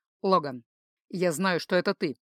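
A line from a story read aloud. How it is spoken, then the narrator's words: Calm and even. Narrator (Russian): произнес он спокойно и ровно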